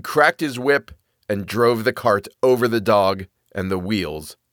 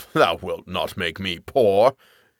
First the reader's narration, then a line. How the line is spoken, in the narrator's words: The wagoner, however, growled to himself